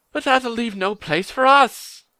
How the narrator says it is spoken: cried Pippin in dismay

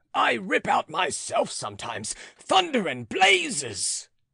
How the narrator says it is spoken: he roared to his horse

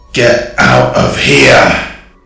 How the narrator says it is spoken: it boomed, the voice box short-circuiting as if it had exploded before slowly fading out

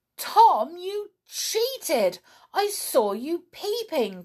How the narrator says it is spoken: cried Donald

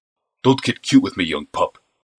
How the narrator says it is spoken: snapped the overweight man

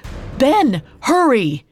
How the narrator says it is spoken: Sumulael shouted

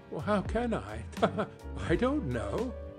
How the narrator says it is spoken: she added in the same breath, laughing as he laughed

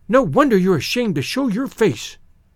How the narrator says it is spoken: cried

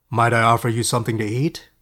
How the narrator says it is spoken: asked in a deep voice

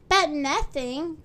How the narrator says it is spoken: cried Little Miss Helpful

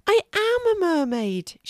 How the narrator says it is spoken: she exclaimed with delight

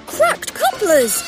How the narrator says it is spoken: cried Thomas

